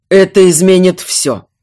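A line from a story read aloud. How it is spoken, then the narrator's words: Cold. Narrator (Russian): холодно отозвался герцог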